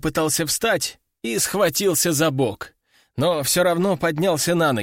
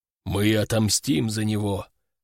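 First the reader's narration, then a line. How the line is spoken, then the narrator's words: Deep bass voice. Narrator (Russian): пробасил он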